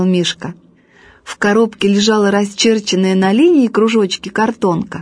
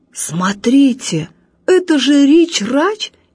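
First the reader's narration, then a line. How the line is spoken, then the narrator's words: Amazed exclamation. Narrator (Russian): изумленно воскликнул дядя Боря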